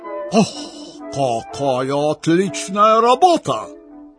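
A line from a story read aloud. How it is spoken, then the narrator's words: Shouted. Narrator (Russian): закричал поручик Пирогов, увидевший шпоры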